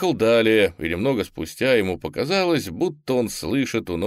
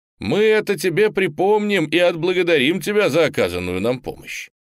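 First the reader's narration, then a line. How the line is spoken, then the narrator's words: Shouted. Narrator (Russian): крикнули ему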